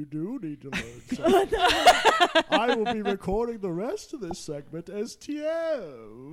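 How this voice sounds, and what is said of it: Usual voice. Nothing is said of it.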